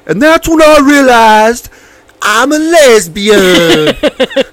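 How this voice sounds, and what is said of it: Slight southern twang impression. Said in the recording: “She's got that southern twang, just a little. She got just a little southern.”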